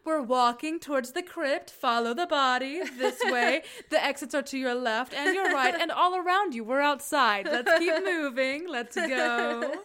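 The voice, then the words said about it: Imitates another person's voice, flight attendant. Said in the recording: “my number one impression ... That is a very good, I thought that you were Marsha Cross ... as a flight attendant”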